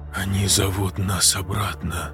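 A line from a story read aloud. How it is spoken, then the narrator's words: Whisper. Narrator (Russian): прошептал Андрей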